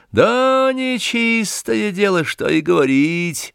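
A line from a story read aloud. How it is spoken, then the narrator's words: Thin, high voice. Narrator (Russian): проговорил тоненьким голосом маленький помещик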